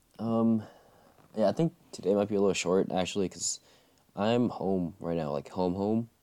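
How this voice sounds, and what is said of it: Worn-out, strained voice. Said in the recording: “my voice is a little shot”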